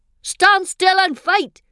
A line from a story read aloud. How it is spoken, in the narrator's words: he yells at me